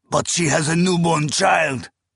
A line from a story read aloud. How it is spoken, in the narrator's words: another cried